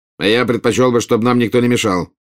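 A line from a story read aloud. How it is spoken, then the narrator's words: Curt reply. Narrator (Russian): отрывисто ответил Скримджер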